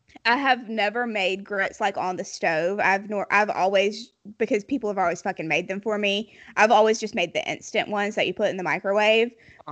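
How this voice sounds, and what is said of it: Heavy Southern US accent. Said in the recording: “Come on, Southern Queen. ... my accent ... y'all both have heavy accents ... very heavy accents”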